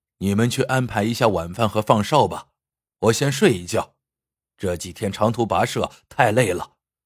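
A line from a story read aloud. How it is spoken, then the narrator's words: Smiling. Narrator (Chinese): 李虎笑了笑，说道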